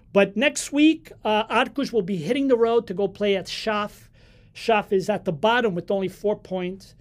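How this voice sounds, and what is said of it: North American Northeast accent. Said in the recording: “My North American Northeast accent”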